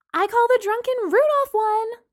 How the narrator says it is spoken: Lana shouted

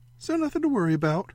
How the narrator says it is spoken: Ray said brightly

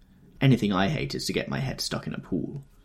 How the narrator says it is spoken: mumbled Miss Baedeker

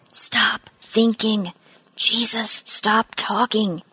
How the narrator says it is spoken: she murmured, the words as quick as her heartbeat

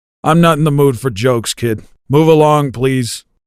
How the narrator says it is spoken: groaned

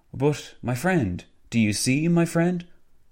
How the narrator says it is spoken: Venizelos gesticulated and exclaimed when attempting to make a point

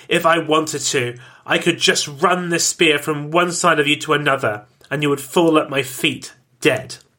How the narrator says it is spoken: He spat

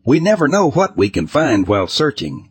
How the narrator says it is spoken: I replied sharply

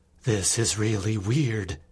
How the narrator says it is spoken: I said in a quivering tone

